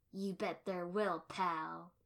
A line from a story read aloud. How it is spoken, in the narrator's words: the man snarled back